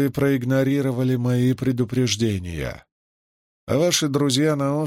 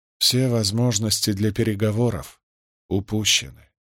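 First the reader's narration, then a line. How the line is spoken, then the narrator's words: Quiet, ashamed. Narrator (Russian): тихо ответил Никли, стыдливо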